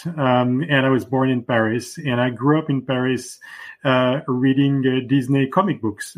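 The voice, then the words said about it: French accent. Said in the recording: “I'm French, as you can probably hear from my accent.”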